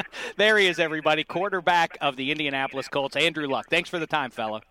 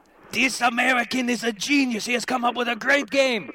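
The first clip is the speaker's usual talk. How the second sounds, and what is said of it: Weak attempt at German accent. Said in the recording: “That was my attempt in a German accent. It wasn't very good.”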